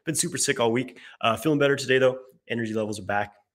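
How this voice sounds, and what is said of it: Slightly off, sick-sounding voice. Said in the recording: “I'm just getting over getting sick, so my voice might be a little weird today.”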